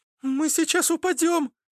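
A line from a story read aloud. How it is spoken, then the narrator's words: Squeaky. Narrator (Russian): пропищала Аглая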